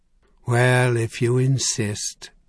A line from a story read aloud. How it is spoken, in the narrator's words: he said in a long, suffering tone